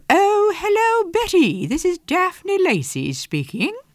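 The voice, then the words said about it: Imitated posh English accent. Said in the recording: “that most glorious of all glorious English accents. And I won't pretend that I can really do it exactly the way she does.”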